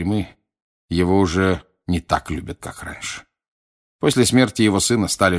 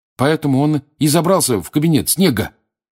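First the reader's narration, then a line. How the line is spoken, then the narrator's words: Triumphant exclamation. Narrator (Russian): торжествующе воскликнул Рон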